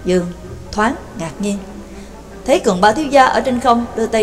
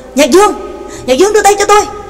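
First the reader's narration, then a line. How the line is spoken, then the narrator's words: Terrified cry. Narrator (Vietnamese): Trác Mộc Cường Ba kinh hãi kêu lên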